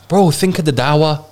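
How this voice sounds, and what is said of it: Put-on northern English accent. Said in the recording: “I don't know why I put a northern accent there.”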